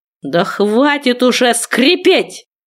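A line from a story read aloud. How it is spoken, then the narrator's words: Angry outburst, growl. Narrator (Russian): взорвался он, рыкнув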